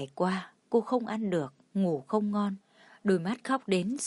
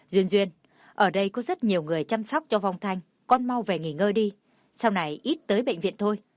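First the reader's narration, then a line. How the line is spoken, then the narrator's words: Raised commanding voice. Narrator (Vietnamese): Ông Cố lên giọng ra lệnh cho cô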